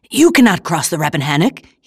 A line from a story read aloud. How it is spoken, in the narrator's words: he exclaimed